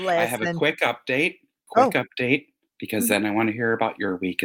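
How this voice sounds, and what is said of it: Usual voice. Nothing is said of it.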